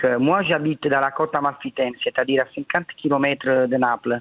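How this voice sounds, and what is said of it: French with a southern, Marseille-like accent. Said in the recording (French): “l'accent que vous avez dit. C'est un accent un peu du sud ... Un peu marseillais ... il y a un côté marseillais aussi chez vous”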